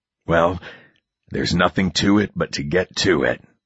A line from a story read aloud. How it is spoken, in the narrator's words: say quietly to myself with a sigh